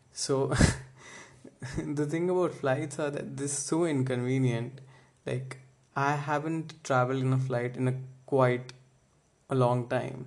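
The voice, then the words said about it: Indian English accent, Delhi. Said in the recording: “This is my Delhi accent”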